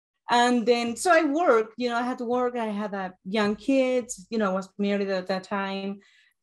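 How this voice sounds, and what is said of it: Uruguayan Spanish accent in English. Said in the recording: “I'm from Uruguay. I have an accent”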